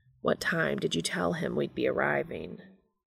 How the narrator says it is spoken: Dean mutters

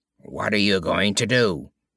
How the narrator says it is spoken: rasped the voice shrilly

